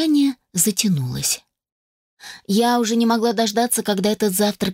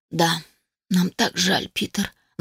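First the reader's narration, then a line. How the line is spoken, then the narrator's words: Sighed, mother. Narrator (Russian): вздохнула матушка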